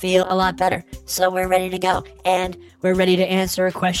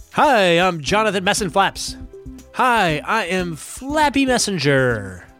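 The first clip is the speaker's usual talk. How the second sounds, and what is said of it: Impression of the co-host. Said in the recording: “my Messing Flaps impersonation”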